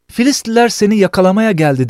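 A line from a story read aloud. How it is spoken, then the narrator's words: Shouts. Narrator (Turkish): diye bağırır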